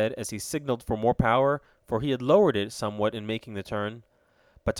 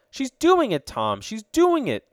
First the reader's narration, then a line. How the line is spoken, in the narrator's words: cried Ned exultingly